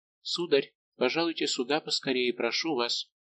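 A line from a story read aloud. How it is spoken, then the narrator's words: Mysterious whisper. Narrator (Russian): Монтале, которая таинственно прошептала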